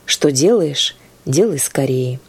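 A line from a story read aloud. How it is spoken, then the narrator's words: Quiet. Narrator (Russian): Христос тихо сказал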